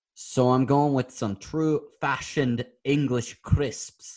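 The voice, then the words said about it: Attempted Scottish accent, sounding Irish. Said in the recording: “It was a very good. Irish way to say that too. ... It was actually a Scottish accent. I don't know why I devolved.”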